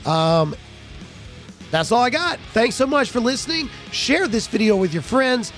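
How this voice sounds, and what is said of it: Hoarse, strained voice. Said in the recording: “My voice is gone.”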